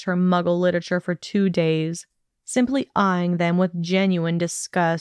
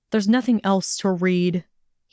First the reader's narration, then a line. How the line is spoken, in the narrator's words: he growled